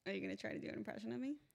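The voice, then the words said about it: Imitates another person's voice. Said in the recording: “do an impression ... That was kind of fine. Yeah, whatever. It wasn't great”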